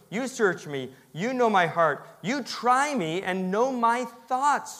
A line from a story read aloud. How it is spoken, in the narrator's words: David says